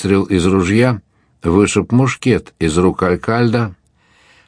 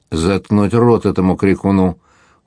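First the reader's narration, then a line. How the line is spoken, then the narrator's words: Cold. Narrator (Russian): холодно сказал медвежонок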